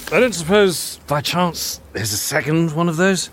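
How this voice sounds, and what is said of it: Poor Captain Jack Sparrow impression. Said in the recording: “it's not a good Captain Jack impression.”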